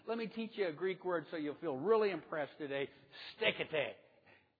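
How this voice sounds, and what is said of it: Spanish accent. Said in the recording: “that's with my Spanish accent”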